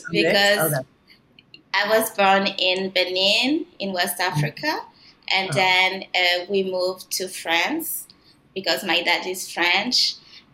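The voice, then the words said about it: Mixed French and Canadian accent. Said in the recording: “I can't place that accent. What's the accent? Is it a French accent? A Canadian accent? ... A mix of both ... it's a different accent. It's not like a Parisian accent.”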